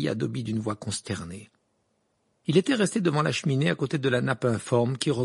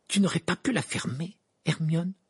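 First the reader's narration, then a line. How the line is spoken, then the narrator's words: Furious. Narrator (French): dit Ron d'un ton furieux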